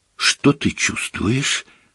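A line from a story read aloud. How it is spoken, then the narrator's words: Whisper. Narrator (Russian): прошептала Гермиона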